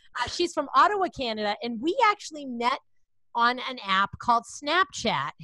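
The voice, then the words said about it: Boston accent. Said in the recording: “I have a Boston accent ... I'm from Boston. I can't pronounce my words.”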